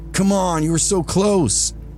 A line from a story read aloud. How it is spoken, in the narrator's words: another voice hollered